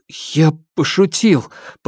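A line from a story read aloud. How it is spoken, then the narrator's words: Stammering mutter. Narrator (Russian): пробормотал он, запинаясь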